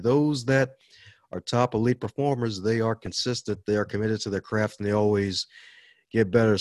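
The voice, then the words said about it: Southern American accent. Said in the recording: “Sounds like you have a little Cajun in your voice ... My Southern accent comes from listening to the Hodge Twins”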